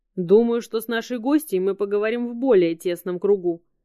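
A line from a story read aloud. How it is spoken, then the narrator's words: Loud. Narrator (Russian): громко произнес Робин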